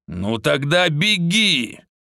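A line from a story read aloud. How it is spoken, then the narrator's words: Angry growl. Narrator (Russian): злобно рыкнул Минотавр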